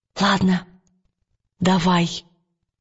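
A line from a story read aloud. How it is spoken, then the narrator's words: Quiet. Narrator (Russian): тихонько откликнулась Лира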